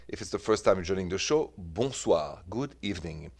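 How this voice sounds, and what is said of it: French accent. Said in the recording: “The accent is French, from Paris.”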